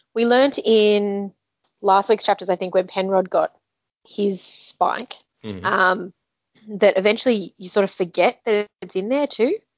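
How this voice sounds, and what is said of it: Hoarse, fading voice. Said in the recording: “my voice is going”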